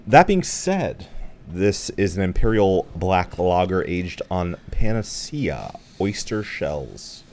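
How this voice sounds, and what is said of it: Slightly stuffy, congested voice. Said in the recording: “I'm sorry if I sound a little stuffy, by the way. I'm just coming off of a cold.”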